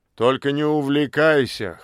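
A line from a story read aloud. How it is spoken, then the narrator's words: Amused grunt. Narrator (Russian): хмыкнул он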